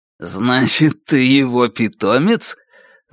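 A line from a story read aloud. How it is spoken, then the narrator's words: Growling. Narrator (Russian): Зарычав, Раскол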